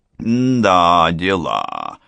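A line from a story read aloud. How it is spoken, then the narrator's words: Drawl. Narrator (Russian): протянул Кличко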